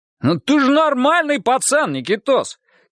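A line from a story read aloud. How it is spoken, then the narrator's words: Shouted after someone. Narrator (Russian): крикнул ему в спину сержант Монахов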